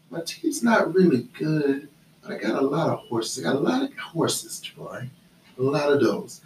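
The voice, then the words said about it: Imitates another person's voice. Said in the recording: “my best Jane impersonation”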